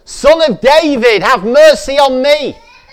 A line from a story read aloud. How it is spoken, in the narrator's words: he only shouted the louder